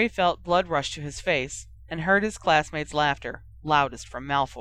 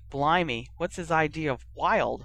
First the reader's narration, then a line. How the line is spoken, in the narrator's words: Ron muttered